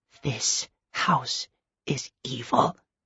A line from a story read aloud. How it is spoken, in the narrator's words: he whispered